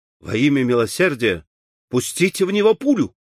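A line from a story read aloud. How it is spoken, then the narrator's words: Horrified exclamation. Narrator (Russian): воскликнул Дункан, с ужасом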